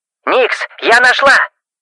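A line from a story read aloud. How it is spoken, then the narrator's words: Shouted into phone. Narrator (Russian): Буквально прокричала в трубку Ребекка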